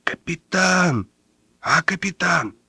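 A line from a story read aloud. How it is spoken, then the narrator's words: Stifled whisper. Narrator (Russian): сдавленным шепотом позвал Майборода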